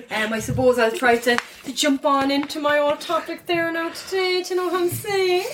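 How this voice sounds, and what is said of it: Put-on Cork Irish accent. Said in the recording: “That's just the Cork accents for anybody that's wondering. Terribly dumb”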